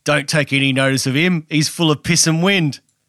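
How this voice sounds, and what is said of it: Put-on accent quoting a film line. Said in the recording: “nice work with the accent as well.”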